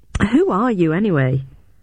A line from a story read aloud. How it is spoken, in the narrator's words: The man laughed